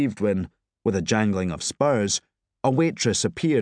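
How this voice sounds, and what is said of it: Usual voice. Nothing is said of it.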